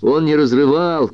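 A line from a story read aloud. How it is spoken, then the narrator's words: Sudden angry shout. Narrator (Russian): крикнул Бобби, внезапно обозлившись на нее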